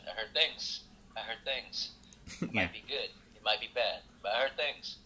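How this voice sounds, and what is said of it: Imitates a film actor's voice. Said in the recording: “I do my Robert De Niro impression.”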